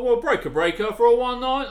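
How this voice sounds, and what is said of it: CB trucker radio voice. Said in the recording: “every time I do an impression of being on the CB, I, I turn into this this trucker”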